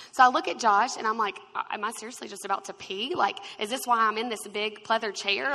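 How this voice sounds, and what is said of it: Usual voice. Nothing is said of it.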